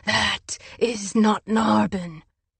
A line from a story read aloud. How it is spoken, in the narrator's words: hissed